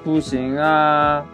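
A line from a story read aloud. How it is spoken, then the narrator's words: Plain. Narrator (Chinese): 小睡鼠回答道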